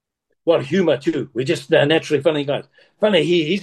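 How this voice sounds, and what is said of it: Usual voice. Nothing is said of it.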